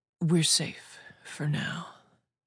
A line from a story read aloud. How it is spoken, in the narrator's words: Shem said softly